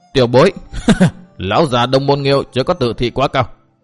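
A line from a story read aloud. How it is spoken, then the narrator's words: Laughing loudly. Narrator (Vietnamese): Độc Trung Chi Độc cười to nói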